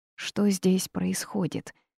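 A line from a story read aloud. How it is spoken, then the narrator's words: Quiet question. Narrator (Russian): тихо спросила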